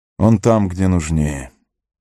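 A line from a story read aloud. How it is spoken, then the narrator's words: Quiet. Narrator (Russian): негромко сказал ему Арагорн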